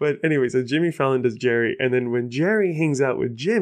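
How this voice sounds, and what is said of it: Usual voice. Nothing is said of it.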